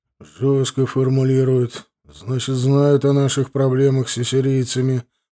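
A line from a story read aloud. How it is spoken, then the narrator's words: Grumbling. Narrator (Russian): проворчал король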